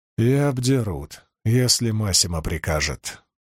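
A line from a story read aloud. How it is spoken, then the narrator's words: Quiet. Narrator (Russian): тихо промолвил Перин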